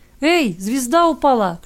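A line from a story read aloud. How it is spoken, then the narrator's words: Child shouting. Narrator (Russian): крикнул кто-то из ребятишек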